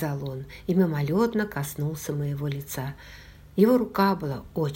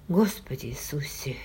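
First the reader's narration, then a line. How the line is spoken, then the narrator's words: Barely audible mutter. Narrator (Russian): еле слышно пробормотал он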